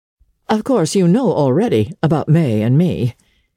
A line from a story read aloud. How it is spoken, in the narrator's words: he said, with a shy laugh